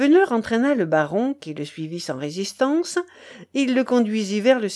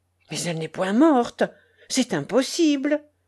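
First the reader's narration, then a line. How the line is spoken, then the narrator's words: Baron exclaiming. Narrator (French): s'exclama le baron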